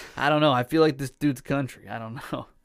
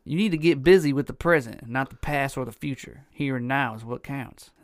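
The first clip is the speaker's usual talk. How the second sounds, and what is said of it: Reads aloud in a put-on accent. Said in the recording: “Fucking accent, dude. Where the hell did that come from?”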